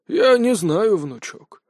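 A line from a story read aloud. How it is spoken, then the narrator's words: Sighed. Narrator (Russian): вздохнул Павел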